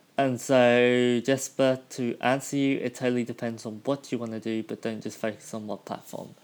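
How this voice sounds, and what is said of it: Strained, hoarse voice. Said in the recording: “losing my voice”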